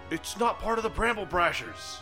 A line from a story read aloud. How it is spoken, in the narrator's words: I will yell out